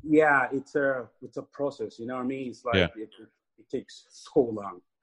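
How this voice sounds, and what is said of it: Mixed African, Irish and American accent. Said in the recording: “I can kind of hear the accent in some of the words you say ... my accent's all over the place ... a little bit of African there. Irish a little bit ... maybe some American”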